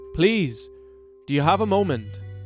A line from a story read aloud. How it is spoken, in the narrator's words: Abrys called out to her